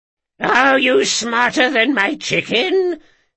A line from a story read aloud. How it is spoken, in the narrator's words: cried a weathered, wild-haired woman